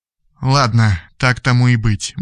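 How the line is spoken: Gloomy thought. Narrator (Russian): мрачно подумал Радислав

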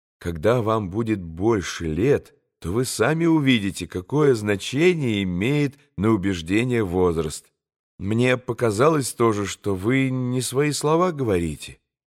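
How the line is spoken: Modest, calm reply. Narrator (Russian): скромно и спокойно ответил Алеша

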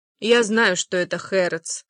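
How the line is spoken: Calm answer. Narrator (Russian): спокойно отвечает Розалинда

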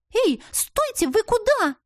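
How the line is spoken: Indignant sparkling outburst. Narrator (Russian): Возмущенно заискрилась Лизанда

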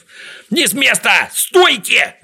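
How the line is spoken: Shouted. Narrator (Russian): закричал Знайка

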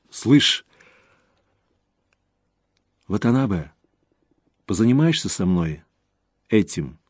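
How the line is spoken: Quiet. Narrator (Russian): тихо сказала Рейка

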